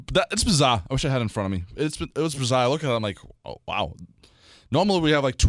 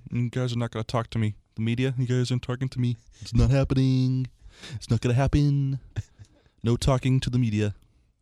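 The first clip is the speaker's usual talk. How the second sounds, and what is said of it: Imitates another person's voice. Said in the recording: “my awful Price impression ... No, it was actually pretty good ... I saw like Kermit the Frog”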